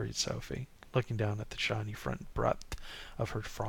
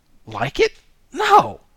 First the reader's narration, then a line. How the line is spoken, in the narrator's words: blurted Louis